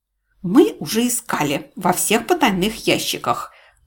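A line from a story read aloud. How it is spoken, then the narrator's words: Spiteful. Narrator (Russian): злобно сообщила Чармин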